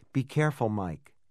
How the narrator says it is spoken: Joe said

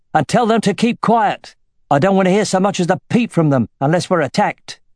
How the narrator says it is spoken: shouted

